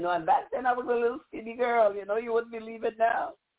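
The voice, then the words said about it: Virgin Islands Caribbean accent. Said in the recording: “I'm talking this accent... from the islands... from the Virgin Islands”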